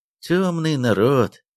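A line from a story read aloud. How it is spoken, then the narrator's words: Sighing. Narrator (Russian): вздохнул Зайцев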